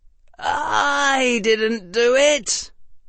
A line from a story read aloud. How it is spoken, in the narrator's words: Harry said in a tired voice